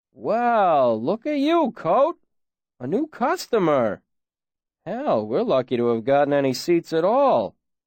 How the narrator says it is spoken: Shep chuckled

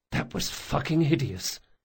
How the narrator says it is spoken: muttered

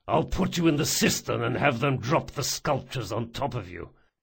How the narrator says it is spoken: he growled

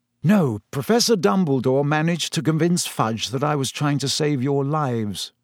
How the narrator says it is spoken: he sighed

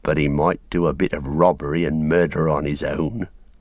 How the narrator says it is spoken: growled Sam

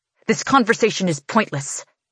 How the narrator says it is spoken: he snaps

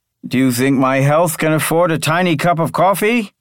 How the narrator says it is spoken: asked loudly enough for her to hear

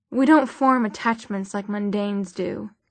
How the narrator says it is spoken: he said

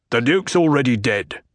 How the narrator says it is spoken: the Baron snapped

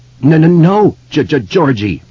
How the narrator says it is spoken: Bill cried

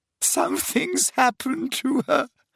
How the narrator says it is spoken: sobbed Leanne

